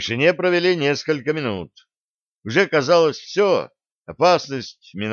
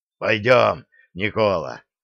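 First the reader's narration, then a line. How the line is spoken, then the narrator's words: Hoarse warrior. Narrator (Russian): прохрипел дружинник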